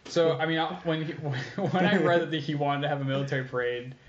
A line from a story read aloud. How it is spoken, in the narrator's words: I laughed a little